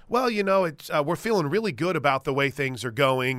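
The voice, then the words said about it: Mock generic sports interview voice. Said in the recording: “This is literally my impersonation... of every single interview that seems to happen”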